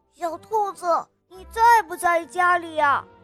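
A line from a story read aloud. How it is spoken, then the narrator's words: Calling from outside. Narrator (Chinese): 有人在门外喊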